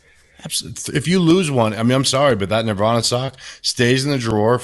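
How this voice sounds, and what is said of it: Usual voice. Nothing is said of it.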